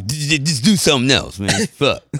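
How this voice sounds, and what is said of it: Imitates another person's voice. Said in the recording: “That was my ... accent.”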